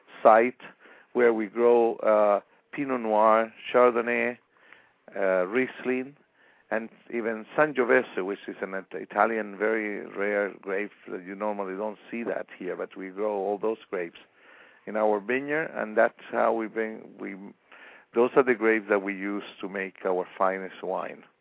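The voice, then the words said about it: Chilean-accented English. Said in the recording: “I detect this accent ... I was born in Chile”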